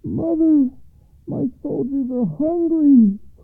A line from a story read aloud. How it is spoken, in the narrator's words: cried the oldest son over the east wall